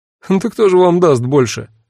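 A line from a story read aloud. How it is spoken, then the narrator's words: Laughing. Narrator (Russian): рассмеялся тот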